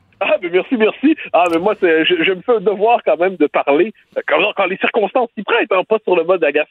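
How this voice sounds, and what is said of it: Strong Québécois French accent. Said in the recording (French): “le gros accent québécois”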